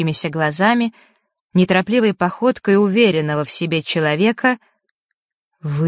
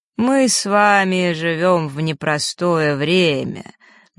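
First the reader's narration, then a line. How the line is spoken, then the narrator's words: Lazy drawl. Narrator (Russian): начал он, лениво растягивая слова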